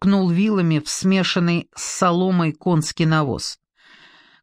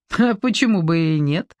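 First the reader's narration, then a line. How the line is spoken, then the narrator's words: Chuckling. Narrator (Russian): хохотнула Ольга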